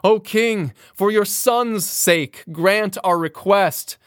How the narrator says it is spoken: falling on their knees, cried

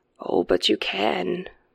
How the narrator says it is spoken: murmured the squat man beneath the umbrella

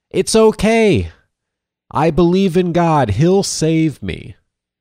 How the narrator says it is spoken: he yells back

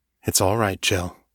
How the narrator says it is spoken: says softly

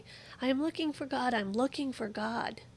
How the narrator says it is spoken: that madman cried incessantly

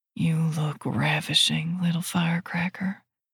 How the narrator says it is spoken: murmurs

